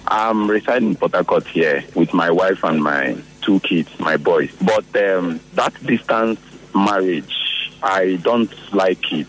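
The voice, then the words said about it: Hoarse, strained voice. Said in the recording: “I lost my voice.”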